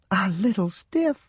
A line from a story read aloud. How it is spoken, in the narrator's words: Mama exclaimed